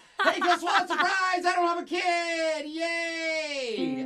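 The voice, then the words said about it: Exaggerated excited surprise-party voice. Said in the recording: “put on your surprise party voice”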